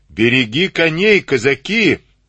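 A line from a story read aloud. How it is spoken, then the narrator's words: Barked. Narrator (Russian): гаркнул Ватнин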